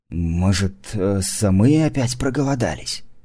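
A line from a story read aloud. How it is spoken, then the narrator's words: Whispered reply. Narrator (Russian): Так же шепотом ответил великану доктор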